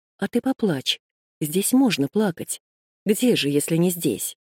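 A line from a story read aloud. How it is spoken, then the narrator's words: Whisper in ear. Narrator (Russian): прошептала на ухо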